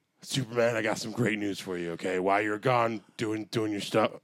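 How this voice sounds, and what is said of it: Put-on Batman character voice. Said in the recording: “I feel like I'm not doing the Batman voice right... You're doing the Batman voice? Is that your real voice?”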